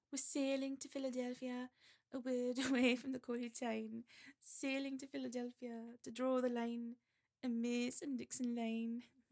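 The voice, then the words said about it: Sung attempt at Geordie accent. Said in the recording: “I'll try Geordie one more time”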